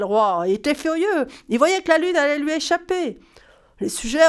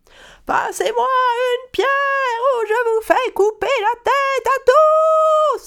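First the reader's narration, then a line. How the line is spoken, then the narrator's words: King yelling. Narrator (French): a hurlé le roi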